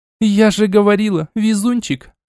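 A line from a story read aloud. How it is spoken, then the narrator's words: Joyful exclamation. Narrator (Russian): Радостно воскликнула Арчанка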